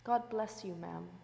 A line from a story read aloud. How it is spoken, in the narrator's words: said kindly